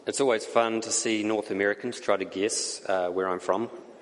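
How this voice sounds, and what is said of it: New Zealand accent. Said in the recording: “my accent comes from ... it comes from New Zealand”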